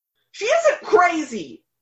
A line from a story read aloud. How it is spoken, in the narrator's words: Eli screamed